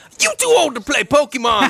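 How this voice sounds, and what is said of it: Imitates a singer's voice. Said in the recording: “Ray Charles impersonator ... That's my Ray Charles impersonation ... could not hit the like Ray Charles screaming notes”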